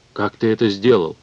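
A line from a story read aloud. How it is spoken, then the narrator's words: Muffled hollow question. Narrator (Russian): глухо спросила Мета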